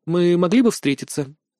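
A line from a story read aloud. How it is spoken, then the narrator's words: Pointedly calm inquiry. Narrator (Russian): также подчеркнуто спокойно осведомилась Ленна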